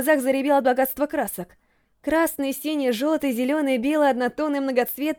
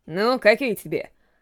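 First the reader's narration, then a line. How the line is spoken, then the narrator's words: Rough, blunt retort. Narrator (Russian): Грубо вернул меня с небес на землю Гаррет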